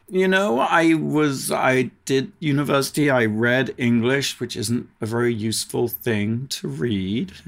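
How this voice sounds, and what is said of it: British accent. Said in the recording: “I'm guessing that accent, it's not from Mississippi... I'm a British, originally British”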